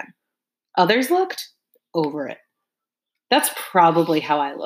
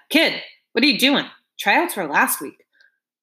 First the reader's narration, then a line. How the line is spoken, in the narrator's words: Coach Turtleface noticed me and called out